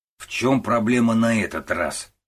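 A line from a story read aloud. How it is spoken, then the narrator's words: Stern question. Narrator (Russian): строго вопросил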